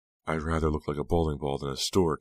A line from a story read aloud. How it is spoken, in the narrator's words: Lila grumbled